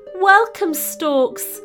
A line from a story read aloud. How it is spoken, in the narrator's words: it cried, wiping the tears away with its wing